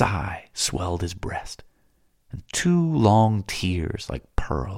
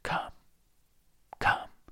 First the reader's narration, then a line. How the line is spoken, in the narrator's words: He murmured